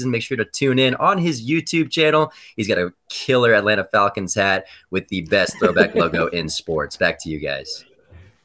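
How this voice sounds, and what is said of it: News anchor style voice. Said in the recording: “Tried to use my little news voice there.”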